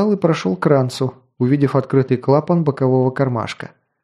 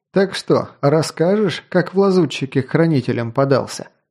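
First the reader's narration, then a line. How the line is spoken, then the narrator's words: Chuckle. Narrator (Russian): хохотнул Тарин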